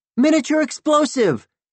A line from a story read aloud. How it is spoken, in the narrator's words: the Ares boy bellowed